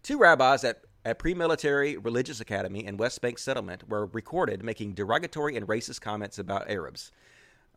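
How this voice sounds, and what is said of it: Southern American accent. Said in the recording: “that's just my southern accent. That's how we say it, Arabs.”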